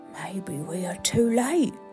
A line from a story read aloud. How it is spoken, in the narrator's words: whispered Bear